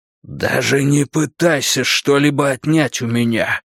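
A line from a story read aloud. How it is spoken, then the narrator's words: Hoarse wheeze. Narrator (Russian): прохрипел он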